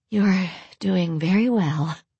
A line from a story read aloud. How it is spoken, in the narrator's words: Lorelai breathed